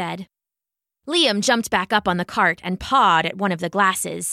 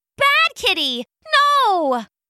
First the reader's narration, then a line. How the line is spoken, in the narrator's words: the maid shouted